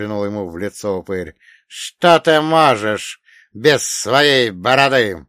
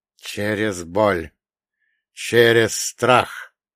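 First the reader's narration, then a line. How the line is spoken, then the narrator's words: Muttering through clenched teeth. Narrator (Russian): пробормотал Афанасий, стиснув зубы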